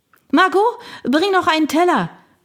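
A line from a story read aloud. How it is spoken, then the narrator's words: Bellowed toward kitchen. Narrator (German): brüllte Agnès zur Küche hinüber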